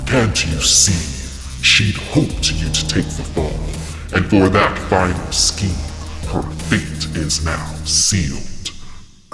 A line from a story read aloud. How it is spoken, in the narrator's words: Krampus bellowed